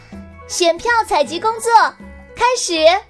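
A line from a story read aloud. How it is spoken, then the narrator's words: Loud announcement. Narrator (Chinese): 糖糖高声说道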